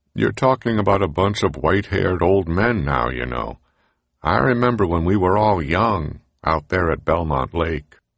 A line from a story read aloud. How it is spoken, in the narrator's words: Shapiro said to him sadly